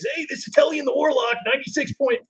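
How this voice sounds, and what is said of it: Fake radio DJ voice. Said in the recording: “one of those fake radio personalities ... your dumb radio voice”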